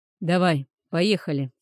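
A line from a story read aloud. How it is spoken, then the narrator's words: Annoyed hurrying. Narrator (Russian): сердито поторопил его северянин, раздосадованный сам на себя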